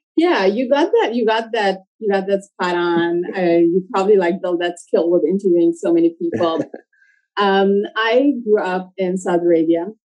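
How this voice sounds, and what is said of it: Non-native English, Middle Eastern accent. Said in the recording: “a non-born English as a first language, born in the U.S. accent... It sounds like perhaps in sort of the Middle East region.”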